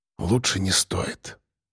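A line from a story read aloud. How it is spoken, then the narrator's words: Whisper. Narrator (Russian): сказал я шепотом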